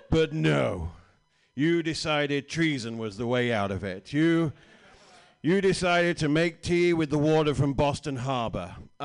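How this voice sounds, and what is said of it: British accent. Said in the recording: “Big British John, because you know British and um, this ain't going away anytime soon ... This is a version of the accent you could have had.”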